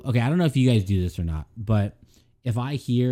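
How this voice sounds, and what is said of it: Usual voice. Nothing is said of it.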